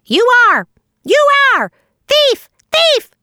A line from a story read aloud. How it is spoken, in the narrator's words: shrieked Sammy